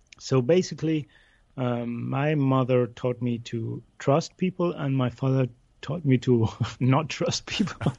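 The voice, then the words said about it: Funny English-school accent. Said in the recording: “I grew up in Buenos Aires, in Argentina. I went to an English school, so this funny accent I have belongs to that.”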